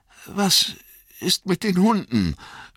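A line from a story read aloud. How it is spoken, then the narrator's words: Anxious question. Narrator (German): fragte Frodo ängstlich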